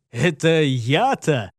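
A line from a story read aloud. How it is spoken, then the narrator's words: Husky laughing reply. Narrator (Russian): с хрипотцой в голосе рассмеялся ему в ответ Гортер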